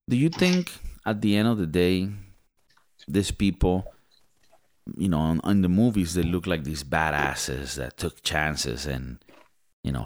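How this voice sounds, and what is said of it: Speaks with a foreign accent. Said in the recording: “My accent sometimes fucks up the way that I'm trying to say shit.”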